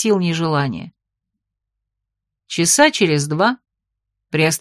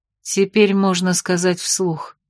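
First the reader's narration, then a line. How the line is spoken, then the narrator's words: Bitter sigh. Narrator (Russian): горько вздохнула Фанни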